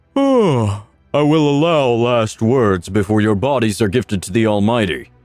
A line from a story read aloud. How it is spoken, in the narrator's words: he says flippantly as he yawns